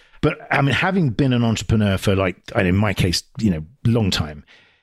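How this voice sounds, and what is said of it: British accent. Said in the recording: “originally a UK series that they sort of brought over here as they did with me, obviously, as you can tell from the accent”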